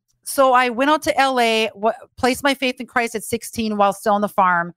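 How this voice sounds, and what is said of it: Rural Fargo Midwestern accent. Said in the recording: “that Fargo hick accent. But, and I still got it. ... my hick accent.”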